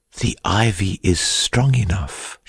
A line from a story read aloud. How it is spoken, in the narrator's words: she had whispered